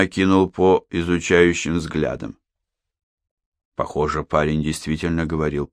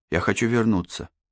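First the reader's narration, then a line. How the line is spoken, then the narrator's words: Quiet. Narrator (Russian): тихо сказал он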